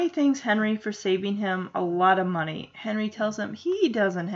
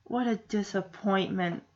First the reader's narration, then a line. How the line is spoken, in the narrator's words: Punky says sadly